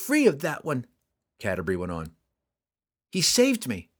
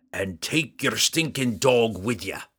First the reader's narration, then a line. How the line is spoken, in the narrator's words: Bruner roared